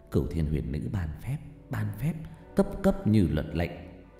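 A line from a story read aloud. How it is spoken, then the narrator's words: Elderly incantation mutter. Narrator (Vietnamese): Cụ Mỹ lẩm bẩm luyện phép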